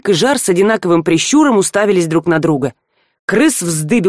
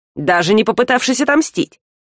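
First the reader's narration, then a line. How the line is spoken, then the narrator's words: Snorting. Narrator (Russian): хмыкнул Жар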